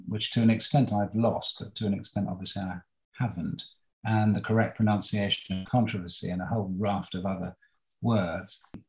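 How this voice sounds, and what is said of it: Posh cut-glass Queen's English accent. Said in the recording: “too posh a voice ... accent that my mother had absolutely demanded that I would have, this kind of cut glass Queen's English accent,”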